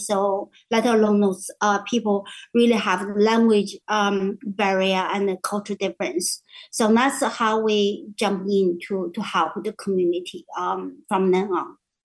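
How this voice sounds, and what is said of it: Speaks English with an accent. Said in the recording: “even you can hear my accent”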